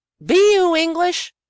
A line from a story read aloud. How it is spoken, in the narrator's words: yelled from a respectful distance